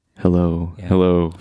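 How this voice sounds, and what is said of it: Put-on radio announcer voice. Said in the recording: “my best radio voice”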